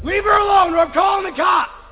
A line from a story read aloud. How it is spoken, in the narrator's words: screaming from the top of my lungs